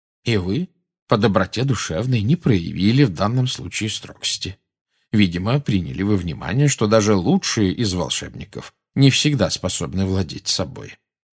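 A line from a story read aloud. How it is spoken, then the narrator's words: Calm. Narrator (Russian): спокойно проговорил Дамблдор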